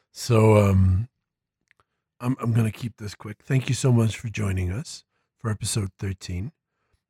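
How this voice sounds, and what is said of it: Sick-sounding, affected voice. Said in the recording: “excuse my voice today. I have a flu”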